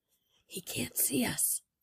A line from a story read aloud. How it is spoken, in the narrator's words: Jeremy whispered